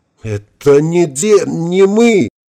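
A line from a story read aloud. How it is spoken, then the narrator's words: Howling. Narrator (Russian): взвыл генерал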